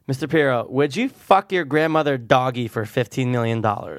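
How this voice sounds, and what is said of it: Exaggerated stereotyped gay voice. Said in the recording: “say it in a gay voice again”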